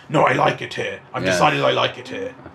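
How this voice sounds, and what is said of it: Impression of a villain's voice. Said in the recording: “It's a very good imitation that you do. ... it's just a general kind of, oh, I'm an evil guy.”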